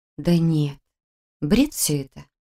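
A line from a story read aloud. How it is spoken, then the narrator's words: Quiet, to herself. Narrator (Russian): сказала себе тихо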